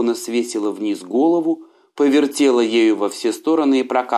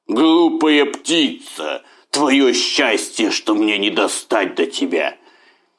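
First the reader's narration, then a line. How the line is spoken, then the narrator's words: Growled, tiger. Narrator (Russian): Тигр прорычал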